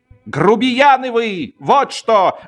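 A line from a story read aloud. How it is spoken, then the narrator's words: Bold shout. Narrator (Russian): закричал капрал, набравшись храбрости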